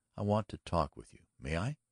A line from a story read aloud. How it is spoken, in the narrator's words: said quietly